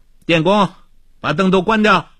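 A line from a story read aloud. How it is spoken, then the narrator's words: Calling out. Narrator (Chinese): 他又叫道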